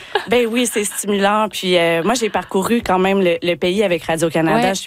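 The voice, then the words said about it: Québécois French accent. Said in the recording (French): “vous pouvez l'entendre par mon accent, je suis québécoise”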